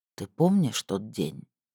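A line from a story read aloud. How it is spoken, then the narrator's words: Quiet. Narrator (Russian): тихо произнес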